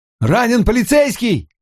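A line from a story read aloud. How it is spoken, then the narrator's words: Shouted. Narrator (Russian): прокричал он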